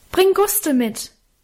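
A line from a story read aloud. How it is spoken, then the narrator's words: Called into darkness. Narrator (German): rief ich ihm in die Dunkelheit nach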